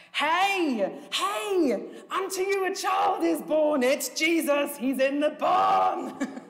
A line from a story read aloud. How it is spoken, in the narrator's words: one of the Herdman children runs forward and shouts out